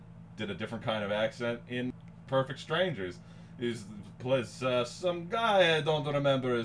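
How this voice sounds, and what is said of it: Usual voice. Nothing is said of it.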